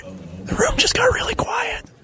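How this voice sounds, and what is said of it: Whispering. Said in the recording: “we're whispering.”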